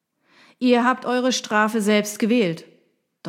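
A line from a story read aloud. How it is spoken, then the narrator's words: Thundering voice. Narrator (German): donnerte er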